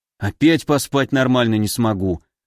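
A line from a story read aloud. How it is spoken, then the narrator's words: Sighing. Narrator (Russian): вздохнул алхимик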